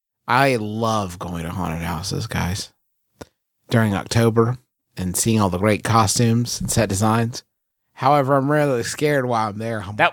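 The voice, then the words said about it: Appalachian accent. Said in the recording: “This darn Appalachian accent.”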